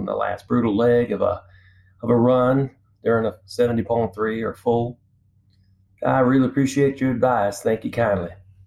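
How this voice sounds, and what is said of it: Exaggerated Southern drawl. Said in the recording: “you're Southern, but you're not that Southern ... the drawl that was a little exaggerated there”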